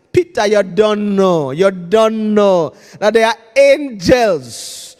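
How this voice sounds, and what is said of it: Put-on foreign accent. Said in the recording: “let me say this in Gerard's language's accent.”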